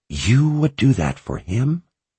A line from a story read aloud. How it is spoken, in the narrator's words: She whispered